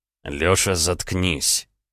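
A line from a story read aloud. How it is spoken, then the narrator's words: Through gritted teeth. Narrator (Russian): процедил Роман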